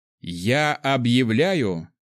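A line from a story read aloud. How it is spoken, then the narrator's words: Emperor loudly over crowd. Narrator (Russian): громко сказал император, заглушая все крики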